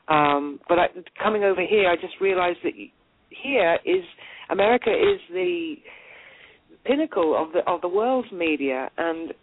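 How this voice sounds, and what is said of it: Strong British accent. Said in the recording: “I've got a very British accent”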